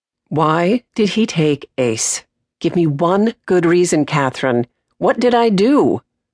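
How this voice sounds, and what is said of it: Carefully controlled, restrained voice. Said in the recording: “in a carefully controlled voice”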